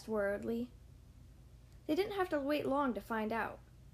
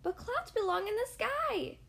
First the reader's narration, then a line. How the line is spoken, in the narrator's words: cried Squirrel